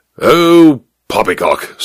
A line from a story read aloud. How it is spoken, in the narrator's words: snorted the major